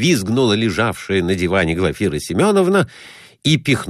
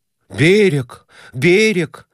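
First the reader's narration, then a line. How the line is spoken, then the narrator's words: Joyful exclamation. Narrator (Russian): радостно восклицал он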